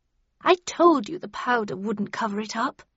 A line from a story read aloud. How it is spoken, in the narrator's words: she said to Bradshaw in a scolding tone